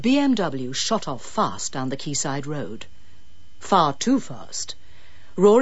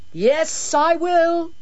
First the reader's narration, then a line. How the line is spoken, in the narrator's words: he shrieked back